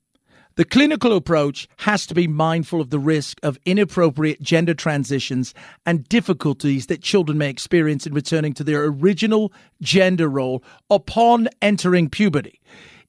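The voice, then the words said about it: Put-on British accent. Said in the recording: “I'm doing the British accent”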